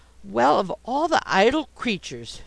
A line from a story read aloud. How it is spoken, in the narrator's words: exclaimed